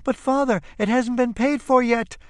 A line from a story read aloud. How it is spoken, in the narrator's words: screams Frau Knopf in utter despair